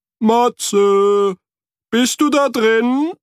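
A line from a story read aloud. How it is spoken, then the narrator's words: Called out. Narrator (German): rief Frederik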